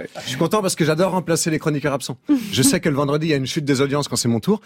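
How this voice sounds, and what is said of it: Put-on Belgian French accent. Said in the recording (French): “cet accent belge que je fais bien, non? ... Ouais, c'est pas mal.”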